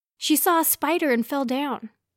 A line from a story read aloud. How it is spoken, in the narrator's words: Steph blurted